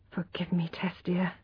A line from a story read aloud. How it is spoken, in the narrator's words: he whispered